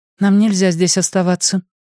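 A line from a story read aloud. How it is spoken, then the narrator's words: Completely calm. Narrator (Russian): голос Холли звучал совершенно спокойно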